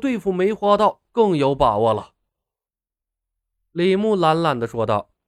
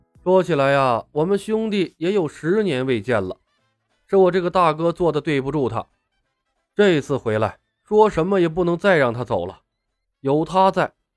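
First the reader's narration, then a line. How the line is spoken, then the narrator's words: Sighing. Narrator (Chinese): 龙啸云叹了一声，说道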